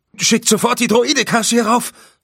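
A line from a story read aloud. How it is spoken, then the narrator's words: Calling out. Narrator (German): rief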